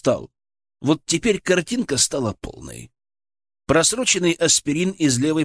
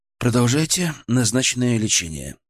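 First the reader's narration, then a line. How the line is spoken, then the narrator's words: Calm. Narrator (Russian): сказал я уже спокойно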